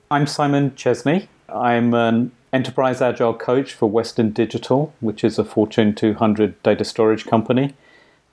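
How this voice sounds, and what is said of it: British accent. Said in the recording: “And your accent is from? ... I'm from the UK originally.”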